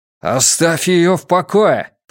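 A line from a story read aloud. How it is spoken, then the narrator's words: Growl in Fjerdan. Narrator (Russian): прорычал Матиас на фьерданском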